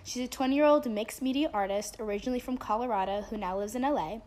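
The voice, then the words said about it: Groggy voice. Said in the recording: “sorry for my voice being all groggy. I'm getting over a cold”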